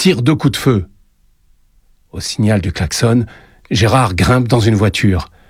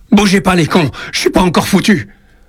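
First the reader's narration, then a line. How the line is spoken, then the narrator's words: Shouting in rage. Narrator (French): Il crie sa rage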